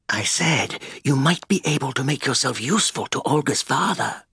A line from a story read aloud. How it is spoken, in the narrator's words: Sigurdsson murmured